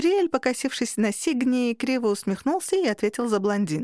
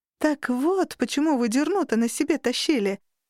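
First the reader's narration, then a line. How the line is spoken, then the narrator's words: Exclaimed. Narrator (Russian): воскликнула я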